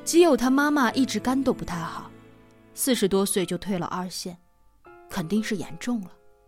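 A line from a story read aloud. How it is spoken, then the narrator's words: Sighing. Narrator (Chinese): 我爸叹了口气说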